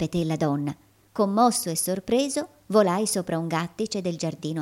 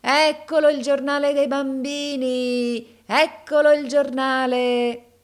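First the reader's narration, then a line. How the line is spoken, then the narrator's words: Shouting. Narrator (Italian): gridava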